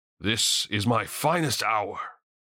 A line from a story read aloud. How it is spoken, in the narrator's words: proclaimed loudly